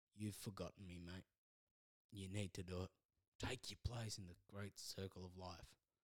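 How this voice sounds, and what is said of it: Put-on Australian accent. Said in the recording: “That's an Aussie version. ... Why am I doing accents?”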